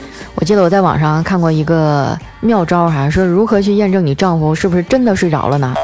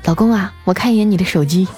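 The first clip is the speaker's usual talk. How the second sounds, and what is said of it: Quiet whispered voice. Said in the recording (Chinese): “小声的在他耳边说一声”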